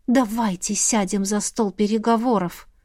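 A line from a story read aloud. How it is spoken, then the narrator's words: Fervent whisper. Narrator (Russian): горячо зашептала я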